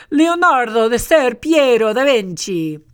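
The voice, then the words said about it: Put-on Italian accent. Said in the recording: “let's see if I can do this with an Italian accent”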